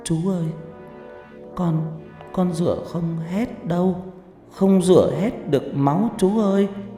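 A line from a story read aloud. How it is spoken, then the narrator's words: Child whimpering, near tears. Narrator (Vietnamese): Nó mếu máo nói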